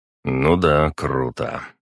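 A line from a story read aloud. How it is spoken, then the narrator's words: Grumbled under breath. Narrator (Russian): пробурчал я себе под нос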